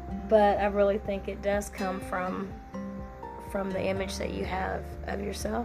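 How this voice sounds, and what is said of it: Strained, hoarse, losing her voice. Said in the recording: “Sorry, my voice. My allergies have hit me really hard lately ... I feel like I'm fighting for my voice again ... pardon me if I sound like I'm losing my voice.”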